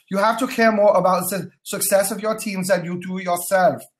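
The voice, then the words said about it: Fake German accent. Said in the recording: “In my best fake German accent”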